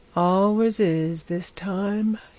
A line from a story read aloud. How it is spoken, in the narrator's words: he said, yawning